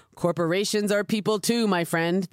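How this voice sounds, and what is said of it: Dull, flat impression of another's voice. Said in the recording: “my best Mitt Romney impression. It is very dull.”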